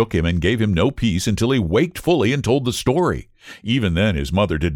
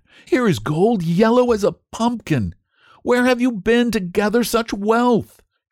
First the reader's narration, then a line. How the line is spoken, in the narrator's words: she screamed